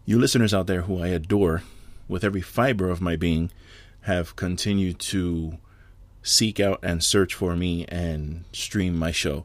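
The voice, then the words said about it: Slightly sore, strained throat. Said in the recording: “I have a little bit of a sore throat.”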